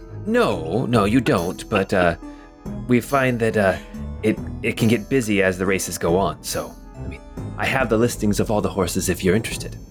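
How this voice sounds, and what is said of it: Put-on French accent. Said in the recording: “I don't know why I decided to do a French accent with my fine voice. This is very hard.”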